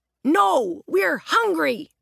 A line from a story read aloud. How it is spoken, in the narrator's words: Roger shouted